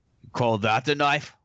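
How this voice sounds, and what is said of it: Put-on Australian accent. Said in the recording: “do our Australian impression of an Australian accent”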